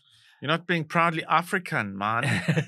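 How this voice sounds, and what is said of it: Put-on Jamaican accent. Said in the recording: “He did a Jamaican accent.”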